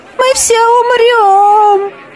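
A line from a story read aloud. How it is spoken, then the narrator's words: Hysterical shout from crowd. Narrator (Russian): истерично закричал кто-то в толпе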